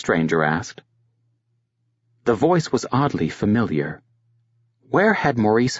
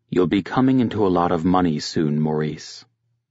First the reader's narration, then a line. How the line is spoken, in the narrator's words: the stranger said